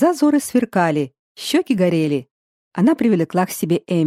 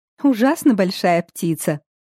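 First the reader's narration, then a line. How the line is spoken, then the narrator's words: Laughing. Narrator (Russian): засмеялась Эмми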